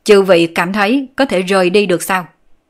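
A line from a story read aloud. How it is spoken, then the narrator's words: Scornful raised voice. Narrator (Vietnamese): Đàm Quân Hạo hừ nhẹ một tiếng, cất cao giọng nói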